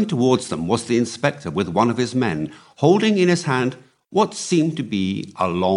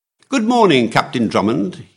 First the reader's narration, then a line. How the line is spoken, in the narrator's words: he cried cheerfully